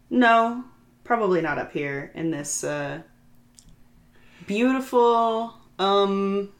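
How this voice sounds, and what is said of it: Loud, pointed delivery. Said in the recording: “saying that in a loud tone of voice”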